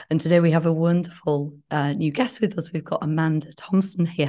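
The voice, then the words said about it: Rough, unwell-sounding voice. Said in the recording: “as you can hear, my voice is still a little bit dicey ... I hope you're feeling better than you sound.”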